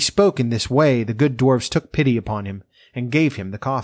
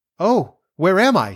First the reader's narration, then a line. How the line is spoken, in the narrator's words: she cried